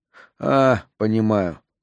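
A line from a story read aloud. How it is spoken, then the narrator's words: Weary. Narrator (Russian): устало промолвил Траск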